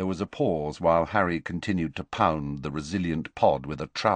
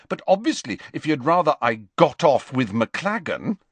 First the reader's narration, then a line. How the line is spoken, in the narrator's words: said Hermione angrily